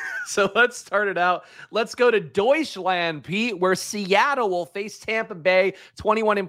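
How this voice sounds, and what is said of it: Usual voice. Nothing is said of it.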